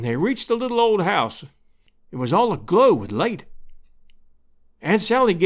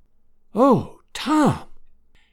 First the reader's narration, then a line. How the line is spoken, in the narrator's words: whispered Aunt Sally, tears of happiness streaming down her old face